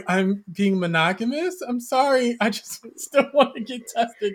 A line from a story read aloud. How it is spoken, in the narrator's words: I just laughed because I'm like